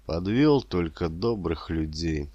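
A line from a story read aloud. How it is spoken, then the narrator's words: Strained, gloomy. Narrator (Russian): вымолвил он с усилием и мрачно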